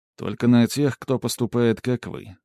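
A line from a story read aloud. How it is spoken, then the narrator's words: Calm reply. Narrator (Russian): спокойно ответил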